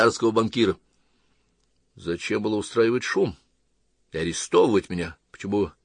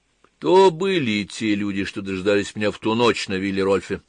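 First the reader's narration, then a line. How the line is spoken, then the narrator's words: Plain. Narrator (Russian): спросил Габриэль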